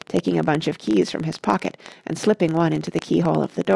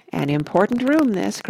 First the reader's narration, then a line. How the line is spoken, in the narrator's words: cried Mr